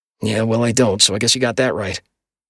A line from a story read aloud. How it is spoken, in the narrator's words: I muttered